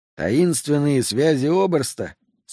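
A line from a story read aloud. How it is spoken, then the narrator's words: Plain. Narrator (Russian): спросил Сол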